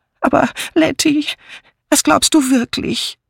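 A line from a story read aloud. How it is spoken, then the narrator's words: Whining lament. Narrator (German): jammerte Miss Banner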